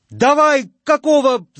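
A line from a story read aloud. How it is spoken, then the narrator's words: Yelling. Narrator (Russian): заорал Шурыгин трактористам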